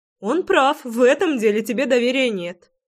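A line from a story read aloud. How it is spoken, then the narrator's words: Laughing loudly. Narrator (Russian): захохотала я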